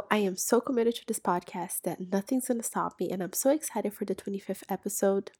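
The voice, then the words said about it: Sick, under-the-weather voice. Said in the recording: “as I'm sure you can hear in my voice, I am a little bit under the weather”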